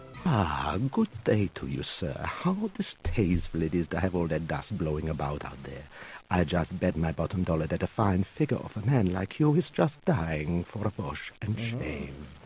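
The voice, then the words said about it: Mild Romanian accent, pleasant. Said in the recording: “a nice man from Romania. He's got a little bit of an accent, but he seems pleasant enough and talks like a human being”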